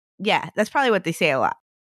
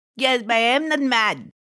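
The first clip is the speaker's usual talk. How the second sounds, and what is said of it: Put-on accent. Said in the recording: “I don't know what accent I'm doing.”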